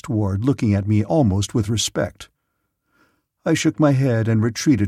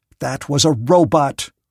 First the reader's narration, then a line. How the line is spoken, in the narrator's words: said Prang, angrily